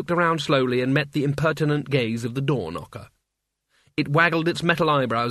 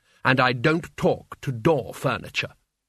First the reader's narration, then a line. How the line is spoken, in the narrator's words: she said haughtily, holding down the lid on her terror